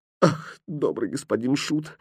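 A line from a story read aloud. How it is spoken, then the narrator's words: Doll sobbing. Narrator (Russian): всхлипывая начала кукла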